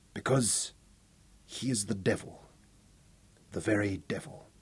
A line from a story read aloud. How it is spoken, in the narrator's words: Robin said softly